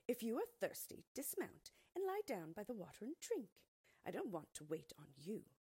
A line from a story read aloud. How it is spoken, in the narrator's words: the maid replied curtly